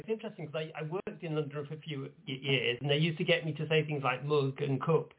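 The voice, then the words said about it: Midlands Nottingham accent. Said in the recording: “I'm not southern. It's Midlands. I'm from Nottingham.”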